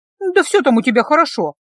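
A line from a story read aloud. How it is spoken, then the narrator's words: Snapping. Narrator (Russian): огрызнулась Мия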